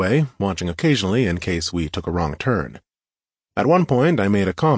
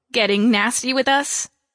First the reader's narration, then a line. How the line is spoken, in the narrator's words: asked, then scoffed